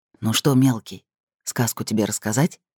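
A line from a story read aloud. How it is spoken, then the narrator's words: Father whispering. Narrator (Russian): шепнул отец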